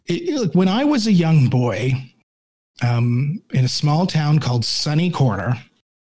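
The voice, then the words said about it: Slightly hoarse, fading voice. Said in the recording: “I'm losing my voice a little bit here.”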